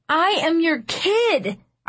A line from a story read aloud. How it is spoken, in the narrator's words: I screamed